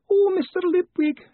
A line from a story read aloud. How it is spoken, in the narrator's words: wailed